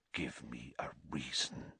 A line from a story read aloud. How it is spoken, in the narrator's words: whispered